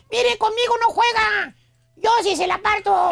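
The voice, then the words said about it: Thin high-pitched squeaky voice. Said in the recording (Spanish): “con voz de pito ... Todos los bravucones tienen una vocecilla bien delgadilla”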